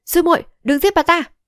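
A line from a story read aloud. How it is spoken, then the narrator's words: Urgent shout. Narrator (Vietnamese): Âu Dương Thù thấy vậy vội quát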